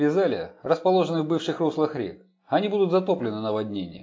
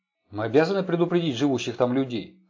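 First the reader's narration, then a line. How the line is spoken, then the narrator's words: Plain. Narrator (Russian): сказал Джек Тернер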